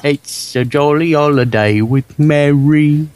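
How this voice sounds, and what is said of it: Deliberately bad imitated British accent. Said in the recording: “The worst British accent you'll ever hear ... is Dick Van Dyke's. ... Wait, I was imitating him.”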